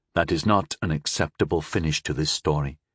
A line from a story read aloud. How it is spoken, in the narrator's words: I said flatly